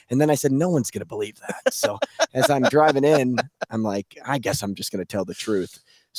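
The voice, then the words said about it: Hoarse, worn-out, quiet voice. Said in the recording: “my voice is shot this week ... just whispering”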